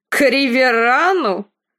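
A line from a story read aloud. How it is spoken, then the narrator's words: Snort. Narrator (Russian): Фрей фыркнул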